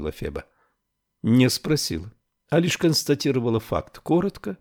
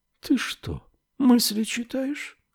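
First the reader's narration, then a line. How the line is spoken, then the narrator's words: Very quiet question. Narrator (Russian): спросила очень тихо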